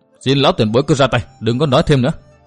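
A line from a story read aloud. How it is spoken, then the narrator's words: Stern. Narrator (Vietnamese): Nguyên Bình nghiêm giọng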